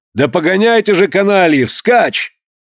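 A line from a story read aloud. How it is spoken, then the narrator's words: Anxious angry shout. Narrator (Russian): Граф, испытывавший такую же тревогу за своего благородного спутника, сердито закричал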